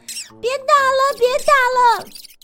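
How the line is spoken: Frightened squeal. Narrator (Chinese): 田鼠吓得尖叫着

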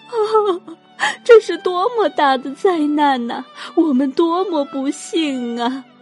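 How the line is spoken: Crowd wailing loudly. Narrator (Chinese): 全街巷的男女老少都嚎哭不止

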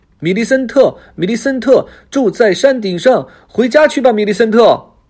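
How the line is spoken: Children shouting together. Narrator (Chinese): 所有孩子都大叫起来

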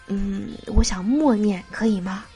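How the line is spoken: Helpless low question. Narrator (Chinese): 眼神中充满了无助，低声的问

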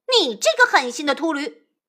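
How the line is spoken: Angry cursing. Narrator (Chinese): 那悟空顿时变了脸，张口怒骂

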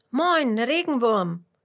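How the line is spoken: Curious call. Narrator (German): ruft Fitus neugierig

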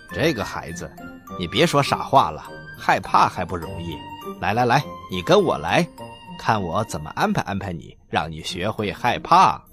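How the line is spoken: Chuckling. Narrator (Chinese): 车夫笑了笑

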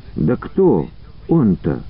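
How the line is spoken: Pleading girl. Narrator (Russian): взмолилась девушка

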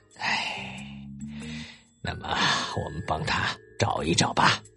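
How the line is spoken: Muttering. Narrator (Chinese): 弗罗拉嘟囔着说

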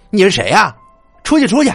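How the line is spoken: Loud, annoyed. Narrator (Chinese): 小美皱着眉头，高声说道

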